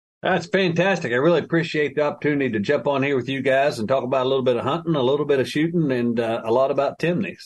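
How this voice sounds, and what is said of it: Appalachian West Virginia accent. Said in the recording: “that's not exactly a Phoenix accent ... I'm a lifelong West Virginia, grew up in the heart of Appalachia”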